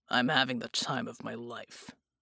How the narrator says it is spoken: Bull grunted

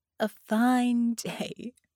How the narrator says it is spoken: she laughed

